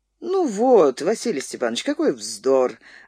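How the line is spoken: Laughing reply. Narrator (Russian): ответил хозяин, смеясь

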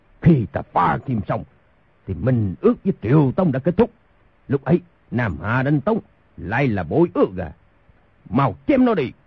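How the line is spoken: Furious shout. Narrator (Vietnamese): Thành Cát Tư Hãn cả giận quát

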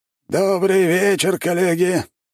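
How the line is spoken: Hoarse, crackling. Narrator (Russian): хриплый и трескучий голос Ларсана

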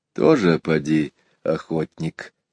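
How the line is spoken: Quiet. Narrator (Russian): так же тихо ответил Иван Захарыч

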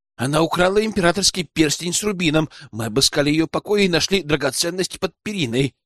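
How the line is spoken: Rapid rattling speech. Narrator (Russian): протараторил сержант

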